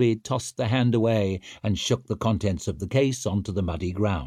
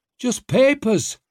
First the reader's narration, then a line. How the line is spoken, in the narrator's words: he grunted